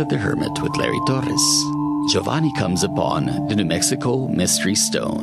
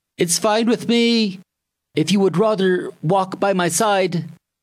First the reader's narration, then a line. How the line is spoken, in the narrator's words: called out